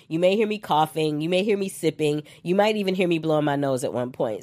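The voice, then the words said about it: Froggy, congested voice from cold. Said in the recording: “I have a little bit of a cold, so I'm a little froggy.”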